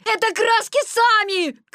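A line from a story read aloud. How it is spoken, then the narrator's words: Desperate shout. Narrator (Russian): крикнул он в отчаянии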